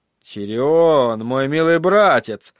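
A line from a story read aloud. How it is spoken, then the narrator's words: Gloomy remark. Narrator (Russian): заметил он мрачно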